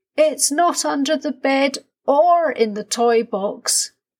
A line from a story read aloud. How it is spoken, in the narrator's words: shouted